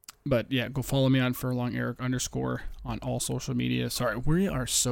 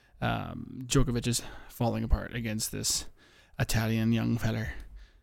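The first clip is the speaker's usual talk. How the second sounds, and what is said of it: Briefly slips into Irish accent. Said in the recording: “I don't know why I sounded Irish there”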